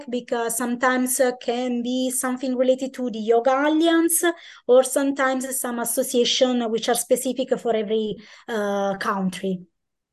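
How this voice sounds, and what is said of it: Italian accent. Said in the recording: “the Italian accent”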